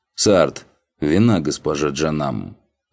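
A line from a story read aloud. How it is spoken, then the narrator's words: Gruff growl. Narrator (Russian): рыкнул он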